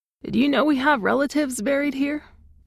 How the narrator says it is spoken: he asked

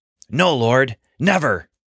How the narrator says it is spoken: Fear and confusion and anger all mixed together in his mind when Jesus said this, and he blurted out

